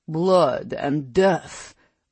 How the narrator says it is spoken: Lucian growled

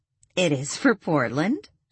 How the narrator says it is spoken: she laughed

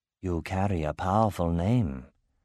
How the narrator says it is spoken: she said softly

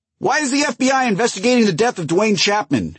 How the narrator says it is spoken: shouted one journalist

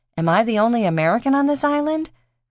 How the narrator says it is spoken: Reese asked with a nervous laugh

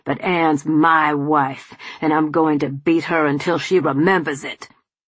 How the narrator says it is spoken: Charles snarled

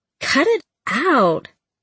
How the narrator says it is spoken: I giggled

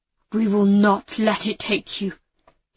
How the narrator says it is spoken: he said, his voice rough with feeling

